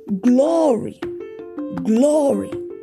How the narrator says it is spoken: shout

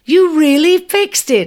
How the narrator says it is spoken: cried, nervous yet excited

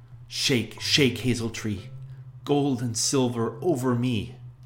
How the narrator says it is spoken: Aschenputtel went sorrowfully and cried out

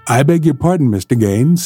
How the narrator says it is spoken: said Atkins

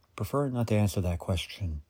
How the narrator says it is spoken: Harry said

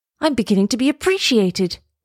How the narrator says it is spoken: he cried

